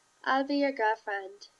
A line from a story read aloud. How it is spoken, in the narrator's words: she said against the side of Ryan's ribs